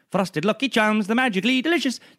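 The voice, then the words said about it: Irish accent, Lucky Charms commercial. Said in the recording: “whenever I think of your accent, I do think of the thousands of times I saw the Lucky Charms commercial as a kid ... That's the only Irish thing I can say.”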